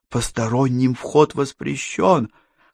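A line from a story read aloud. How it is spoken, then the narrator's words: Whisper. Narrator (Russian): прошептала она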